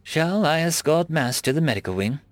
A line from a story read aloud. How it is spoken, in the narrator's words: Lorsa offered kindly